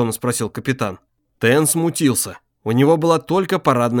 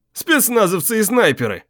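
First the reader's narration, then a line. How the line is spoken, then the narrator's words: Snorted. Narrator (Russian): хмыкнул капитан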